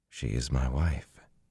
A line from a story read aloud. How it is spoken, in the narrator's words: he said softly